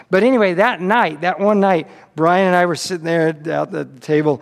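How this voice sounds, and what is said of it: Usual voice. Nothing is said of it.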